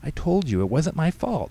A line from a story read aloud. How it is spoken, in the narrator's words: Katie pleaded